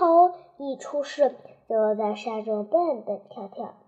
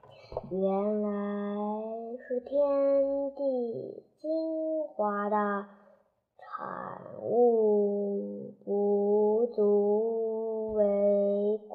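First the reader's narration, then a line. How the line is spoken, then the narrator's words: Slow measured speech. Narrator (Chinese): 玉帝这慢慢说道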